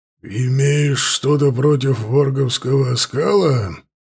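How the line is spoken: Muffled growl. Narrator (Russian): глухо прорычал Лотар

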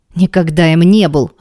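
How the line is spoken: Irritated. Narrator (Russian): раздраженно

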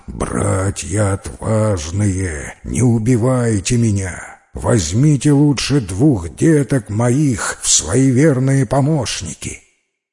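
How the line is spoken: Bear roaring in human voice. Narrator (Russian): медведь вдруг заревел человеческим голосом

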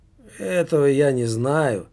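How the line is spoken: Tired. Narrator (Russian): устало проговорила медсестра

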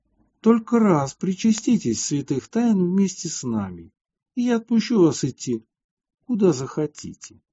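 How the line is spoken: Gentle, kind speech. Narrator (Russian): епарху, который ласково сказал им

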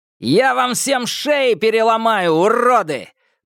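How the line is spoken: Very loud shout. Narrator (Russian): прокричал он так громко, что Томасу захотелось зажать уши

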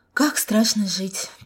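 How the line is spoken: Sighing young woman. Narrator (Russian): только и вздохнула девушка

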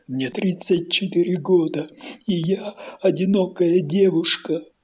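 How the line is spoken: Sobbing shout. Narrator (Russian): зарыдает и крикнет

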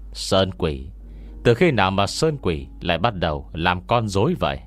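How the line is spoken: Distinctive voice from book pile. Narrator (Vietnamese): trong mớ sách đổ thành một đống vang lên giọng nói đặc trưng của Ngô Miễn

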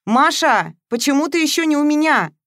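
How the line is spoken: Friend yelling into ear. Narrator (Russian): вопила подруга в ухо

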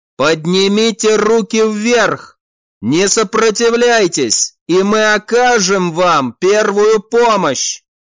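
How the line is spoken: Loud repetition. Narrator (Russian): Еще раз громко повторил Раэль

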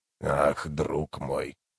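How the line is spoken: Hoarse. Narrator (Russian): хрипло проговорил знакомый голос

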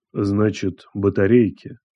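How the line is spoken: Quiet repetition. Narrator (Russian): тихо повторил он

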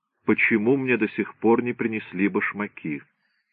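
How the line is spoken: Icy question. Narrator (Russian): он спросил ледяным тоном

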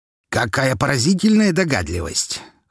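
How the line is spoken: Smirking snort. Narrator (Russian): хмыкнул Лазарев

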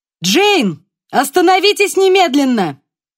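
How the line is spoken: Shouted. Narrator (Russian): крикнула Ева

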